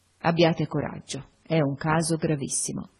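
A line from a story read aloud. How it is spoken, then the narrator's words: Sighing. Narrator (Italian): con un sospiro mi disse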